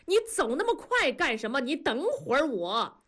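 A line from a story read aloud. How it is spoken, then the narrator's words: Shouting. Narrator (Chinese): 冲大庄喊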